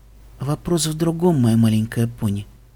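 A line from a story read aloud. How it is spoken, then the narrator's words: Sad. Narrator (Russian): грустно сказала принцесса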